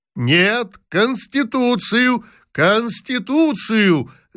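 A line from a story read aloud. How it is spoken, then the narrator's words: Group shouting. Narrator (Russian): закричали другие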